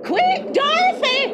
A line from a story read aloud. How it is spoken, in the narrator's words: screamed Aunt Em from inside the house